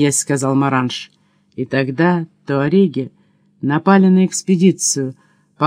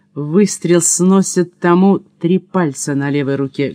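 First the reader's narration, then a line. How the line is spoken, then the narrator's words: Plain. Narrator (Russian): говорит Маранж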